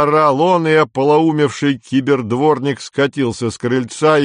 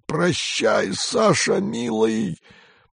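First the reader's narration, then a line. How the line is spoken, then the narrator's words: Wheezing. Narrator (Russian): просипел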